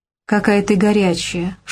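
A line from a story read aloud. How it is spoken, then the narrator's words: Intimate whisper. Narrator (Russian): шепнул он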